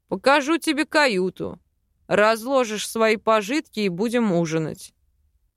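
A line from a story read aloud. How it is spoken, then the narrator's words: Deep bass voice. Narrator (Russian): пробасил он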